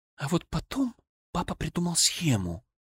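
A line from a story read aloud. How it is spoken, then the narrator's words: Quiet. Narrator (Russian): тихо сказала Анна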